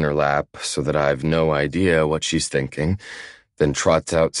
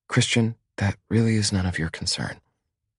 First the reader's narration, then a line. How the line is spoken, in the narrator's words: she whispers